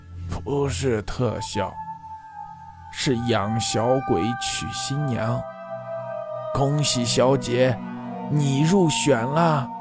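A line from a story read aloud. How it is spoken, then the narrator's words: Sudden hoarse male voice. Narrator (Chinese): 一个嘶哑的男人声音突然从他背后冒出来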